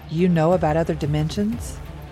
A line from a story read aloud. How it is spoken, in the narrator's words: Jeb chuckled again